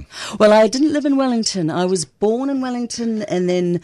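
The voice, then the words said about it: Educated New Zealand accent. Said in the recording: “a funny hybrid of an educated New Zealand accent ... there's a New Zealand accent there for sure”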